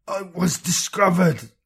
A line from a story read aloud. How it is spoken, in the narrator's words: Lothar gasped, blood frothing from his lips